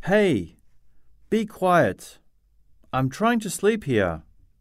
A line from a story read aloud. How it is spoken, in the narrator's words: She gets angry and shouts